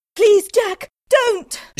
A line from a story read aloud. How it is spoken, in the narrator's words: cried